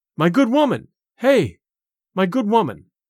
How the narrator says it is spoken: cried

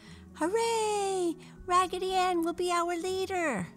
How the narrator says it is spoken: all the other dolls clapped their hands together and shouted

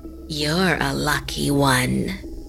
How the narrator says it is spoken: the woman said in a creepy voice

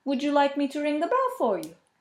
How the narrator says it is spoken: the kindly priest asks

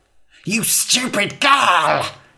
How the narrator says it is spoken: hissed the witch

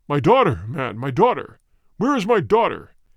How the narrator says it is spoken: cried he in a rage

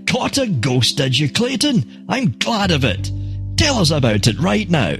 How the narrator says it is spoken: Evans, who admires Clayton immensely ... shouted

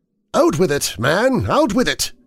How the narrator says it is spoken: Cathcart cried, terror running neck and neck with entreaty

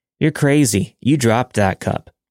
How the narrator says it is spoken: James laughed and said

